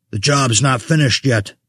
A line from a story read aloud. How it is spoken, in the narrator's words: Vessel spat